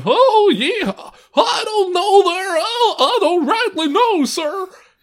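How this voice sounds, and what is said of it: Cowboy character voice. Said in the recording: “I had to be a cowboy walking around ... Can you do the voice? ... I did the kind of ... It wasn't quite like that, but it was that vibe.”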